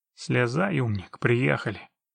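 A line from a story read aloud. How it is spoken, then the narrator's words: Grumbling. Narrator (Russian): пробурчал Трамп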